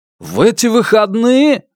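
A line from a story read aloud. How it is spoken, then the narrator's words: Exclaimed. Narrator (Russian): воскликнул Джек Разен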